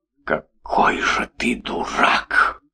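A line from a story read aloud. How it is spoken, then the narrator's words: Loud whispered exclamation. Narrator (Russian): Громким шепотом воскликнула Маша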